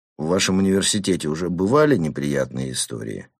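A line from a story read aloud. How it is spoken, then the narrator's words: Calm question. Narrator (Russian): спокойно спросил Ньеман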